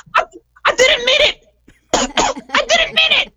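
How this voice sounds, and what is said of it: Comic character voice of a bat. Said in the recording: “I could do my impression of the Wuhan bat ... Sounds just like him.”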